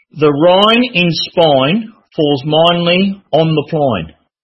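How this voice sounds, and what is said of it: Put-on Australian accent. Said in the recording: “learn the Australian accent”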